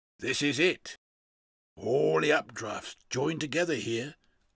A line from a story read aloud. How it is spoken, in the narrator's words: croaked Cadvan